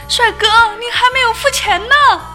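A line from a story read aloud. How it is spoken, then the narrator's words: Shouting. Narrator (Chinese): 收银员在后面追着大喊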